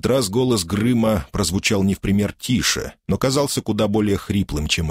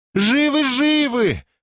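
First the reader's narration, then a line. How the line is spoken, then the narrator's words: Joyful reply. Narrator (Russian): радостно откликнулась Хафла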